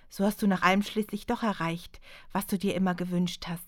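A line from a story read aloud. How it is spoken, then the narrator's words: Calm, surprised, restrained pain. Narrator (German): sagte sie ruhig, überrascht, dass der alte Schmerz zwar aufflammte, sie aber nicht gänzlich überrollte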